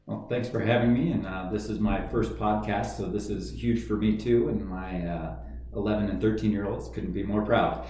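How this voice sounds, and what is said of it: Deep resonant radio voice. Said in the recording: “this dude's got a radio voice, you got a radio voice”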